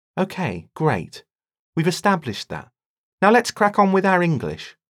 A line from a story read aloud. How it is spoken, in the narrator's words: Rosalind said brightly